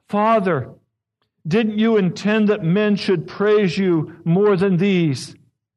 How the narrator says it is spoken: With her heart overflowing, she cried

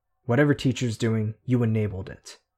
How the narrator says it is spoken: Narwhal said

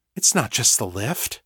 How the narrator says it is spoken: Sasha whispered, horrified

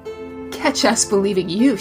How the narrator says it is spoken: laughed

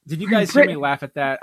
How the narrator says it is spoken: I laughed

